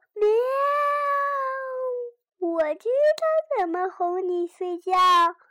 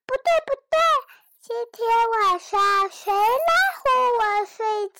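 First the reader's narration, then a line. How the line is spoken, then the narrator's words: Muffled loud clamoring. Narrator (Chinese): 雷尼在床单里大呼小叫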